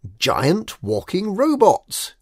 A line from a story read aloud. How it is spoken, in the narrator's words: exclaimed K